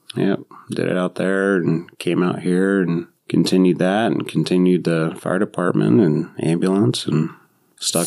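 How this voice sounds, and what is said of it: Southern American accent. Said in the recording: “Everybody swears I'm from the South. They all say I have an accent from the South”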